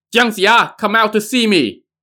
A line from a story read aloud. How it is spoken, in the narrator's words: Yin Jiao shouted